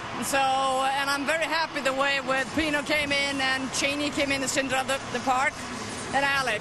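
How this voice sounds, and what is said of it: Swedish accent. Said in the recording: “that accent, she's from Sweden.”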